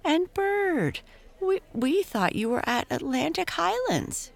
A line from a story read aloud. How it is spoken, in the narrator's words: she almost squealed